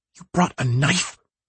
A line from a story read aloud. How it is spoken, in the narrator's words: She hisses